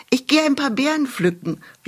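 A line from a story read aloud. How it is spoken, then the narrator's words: Calling out. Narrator (German): rief sie ihrer Mutter zu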